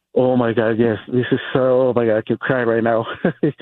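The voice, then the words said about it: Emotional, on the verge of tears. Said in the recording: “I can sense it. I hear it in your voice.”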